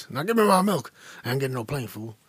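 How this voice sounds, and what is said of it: Imitates B.A. Baracus tough-guy voice. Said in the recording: “Can I do that impression? ... You're doing an impression of B.A. Baracus.”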